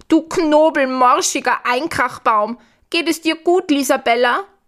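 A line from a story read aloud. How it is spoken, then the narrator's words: Calling out. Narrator (German): ruft Gustav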